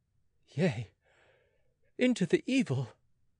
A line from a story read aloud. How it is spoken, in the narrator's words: cried the youth once more